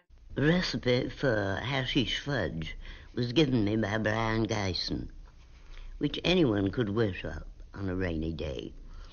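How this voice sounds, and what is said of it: Old-fashioned patrician mid-Atlantic accent. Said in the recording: “Her accent is that totally old school patrician mid-Atlantic accent, ... that we never hear anymore. She sounds like someone's regal great-grandmother. ... Sometimes she's hard to understand”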